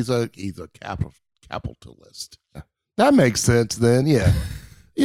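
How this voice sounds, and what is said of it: Usual voice. Nothing is said of it.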